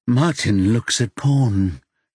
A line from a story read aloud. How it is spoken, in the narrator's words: slurred